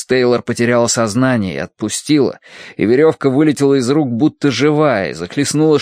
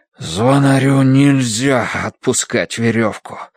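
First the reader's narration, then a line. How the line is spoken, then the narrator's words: Breathless, straining. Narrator (Russian): выдохнул, дергая изо всех сил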